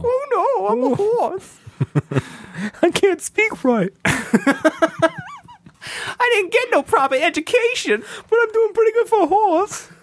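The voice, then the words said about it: Silly horse character voice. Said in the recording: “I was doing a horse voice.”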